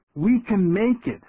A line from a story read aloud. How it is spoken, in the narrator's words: pleaded